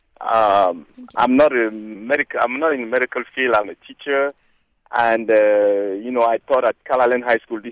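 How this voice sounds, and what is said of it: Cameroonian-accented English. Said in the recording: “from my accent, you can see that I was born not here ... I was born in Cameroon, which is West Central Africa”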